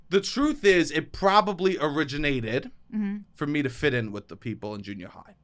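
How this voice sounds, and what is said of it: New York accent. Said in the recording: “I can't even undo my accent. ... So this is 100% real, this accent? ... he's not actually from New York”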